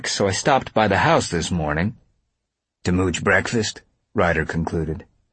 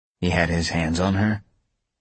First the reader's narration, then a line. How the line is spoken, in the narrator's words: Ryder said softly